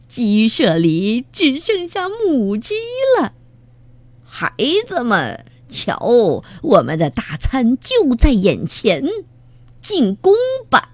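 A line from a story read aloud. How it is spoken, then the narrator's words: Strange-voiced laughing. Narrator (Chinese): 强盗巴巴怪声笑道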